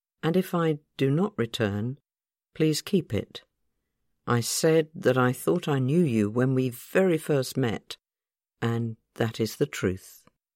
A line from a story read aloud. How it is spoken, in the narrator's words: He then said very calmly